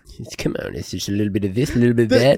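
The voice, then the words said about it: Suave voice with a lisp. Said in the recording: “Are you doing like Golem? Like, what is that voice? ... does the lisp best. ... suave ... guy. ... Lisp.”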